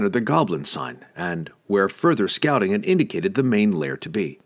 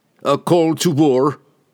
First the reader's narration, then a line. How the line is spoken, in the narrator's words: Wulfgar roared